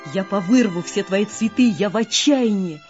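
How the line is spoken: Shouted. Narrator (Russian): закричала

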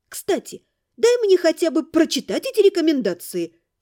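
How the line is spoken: Exclaimed. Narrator (Russian): воскликнула

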